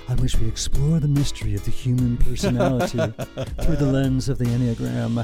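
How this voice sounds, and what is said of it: FM radio announcer voice. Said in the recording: “Here comes my FM radio voice.”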